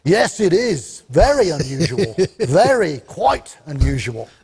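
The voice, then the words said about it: Good put-on Cockney accent. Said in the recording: “that's a pretty good Cockney accent.”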